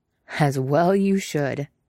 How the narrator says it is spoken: Zeb growled, his voice a rumble under Callus's cheek

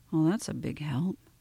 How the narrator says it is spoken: Ray muttered

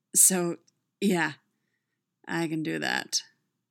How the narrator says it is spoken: he said, his voice bottomed out and hoarse

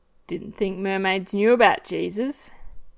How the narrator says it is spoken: Ed says, voice laced with laughter and heat

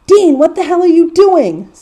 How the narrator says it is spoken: yells

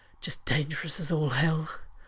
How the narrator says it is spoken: Rodney said in a harsh voice

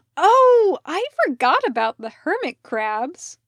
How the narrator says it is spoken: Parker cried

